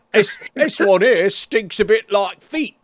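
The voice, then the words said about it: Put-on English accent. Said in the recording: “that was a you voice ... was that your English accent? ... Apparently, it might have been.”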